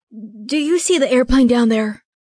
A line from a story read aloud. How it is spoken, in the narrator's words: I sputtered